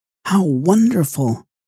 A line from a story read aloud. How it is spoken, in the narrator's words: she exclaimed